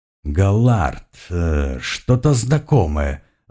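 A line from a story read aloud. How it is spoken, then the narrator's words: Thoughtful drawl, priest. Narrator (Russian): задумчиво протянул жрец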